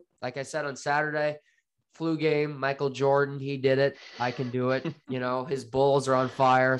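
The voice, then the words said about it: Hoarse, congested voice. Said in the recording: “I am still dealing with a cold. I apologize for my voice. Sometimes I will cough.”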